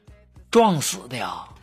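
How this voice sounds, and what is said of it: Quiet, hushed speech. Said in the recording (Chinese): “小声对我妹妹说”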